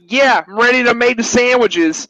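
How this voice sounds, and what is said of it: Thick Italian New Yorker accent. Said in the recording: “he has like this really thick... He has like this thick, like Italian, like New Yorker accent”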